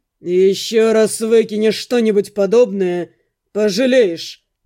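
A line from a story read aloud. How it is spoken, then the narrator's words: Menacing, through teeth. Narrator (Russian): процедил он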